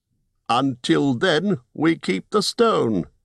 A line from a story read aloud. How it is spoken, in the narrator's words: cried Bard